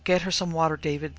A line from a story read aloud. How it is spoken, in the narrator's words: sobbed her mother